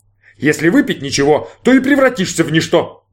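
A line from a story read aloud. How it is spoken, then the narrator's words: Roared. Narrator (Russian): взревел Мишкин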